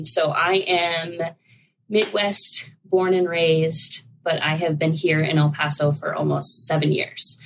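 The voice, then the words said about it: Rural Iowa Midwestern accent. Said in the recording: “I definitely still have my rural Iowa accent that everybody makes fun of me for”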